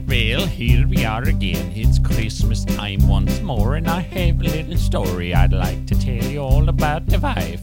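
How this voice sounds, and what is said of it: Scandinavian accent. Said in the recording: “He used to do this song with that Scandinavian accent”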